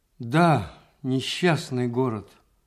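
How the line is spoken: Sigh then laugh. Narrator (Russian): вздохнул Иван Дмитрич и засмеялся

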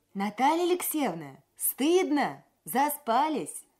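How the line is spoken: Calling out. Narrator (Russian): Сиверс крикнул мне

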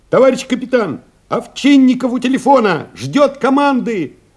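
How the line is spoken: Someone shouting. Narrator (Russian): крикнул кто-то

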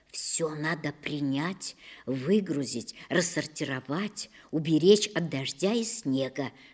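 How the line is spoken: Mother's whisper. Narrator (Russian): шептала мне мама

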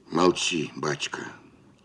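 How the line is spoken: Growled. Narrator (Russian): прорычал

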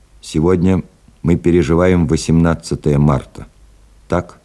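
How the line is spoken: Calm, firm voice. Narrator (Russian): Адмирал произнес спокойным и твердым голосом

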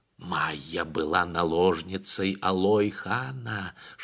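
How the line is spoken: Whisper. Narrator (Russian): шептал Кугей хану Сарымбет

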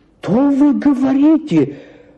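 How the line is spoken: Exclamation. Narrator (Russian): воскликнула Мария Гавриловна

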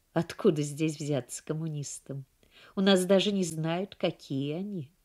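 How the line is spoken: Calm, hiding fear. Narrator (Russian): Дьен похолодела, однако виду не подала и спокойно сказала

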